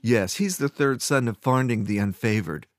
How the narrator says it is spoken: Fiera laughed

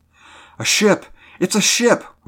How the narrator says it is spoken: we cried excitingly

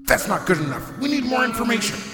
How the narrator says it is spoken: yell out to the Fool

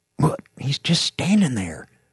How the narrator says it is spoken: whispered

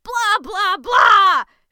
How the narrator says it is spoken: shouted Starlight at the sky

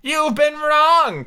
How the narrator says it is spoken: cried Tweedledum

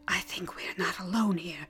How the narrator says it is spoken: the priestess whispered

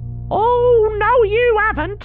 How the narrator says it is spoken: She screeched

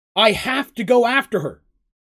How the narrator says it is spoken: yelled Seraph

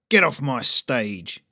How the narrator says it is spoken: snarled

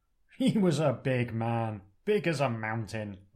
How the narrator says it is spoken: laughs Mungo

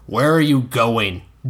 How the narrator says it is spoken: Dunk asked in a stern voice

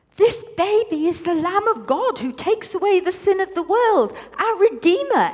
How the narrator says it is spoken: exclaimed Reuben

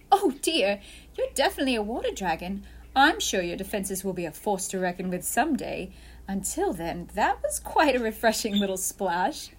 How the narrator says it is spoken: giggled Pirate Lydia

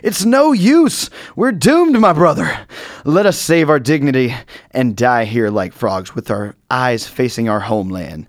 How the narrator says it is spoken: the second frog cried out

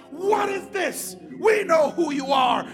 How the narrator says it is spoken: throwing themselves into convulsions, screaming out

